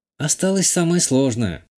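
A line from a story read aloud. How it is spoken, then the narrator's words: Sigh. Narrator (Russian): вздохнула Натали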